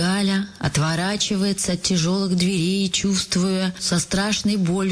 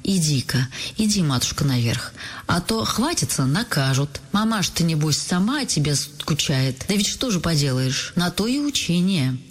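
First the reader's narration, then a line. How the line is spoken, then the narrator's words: Gentle but firm. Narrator (Russian): ласково, но решительно говорит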